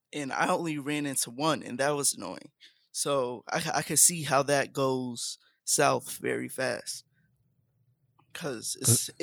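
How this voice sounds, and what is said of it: Hoarse, cracking voice. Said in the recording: “what is up with your voice, man? ... my voice gets more hoarse. ... puberty is crazy”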